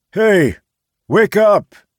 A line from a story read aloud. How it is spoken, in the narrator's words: Charles said loudly